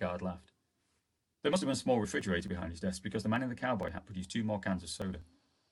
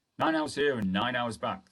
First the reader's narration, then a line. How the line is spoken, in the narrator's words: the guard grumbled